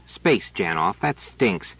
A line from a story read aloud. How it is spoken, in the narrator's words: Trevise said irritably